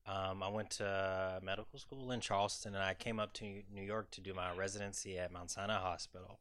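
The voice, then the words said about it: Southern US drawl. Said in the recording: “You may hear a southern drawl as I talk more”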